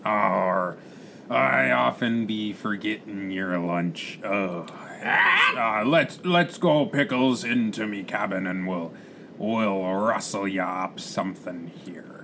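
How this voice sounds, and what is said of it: Put-on pirate accent. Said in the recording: “I don't know what accent I'm doing ... That's a very good accent ... I can be a cowboy pirate”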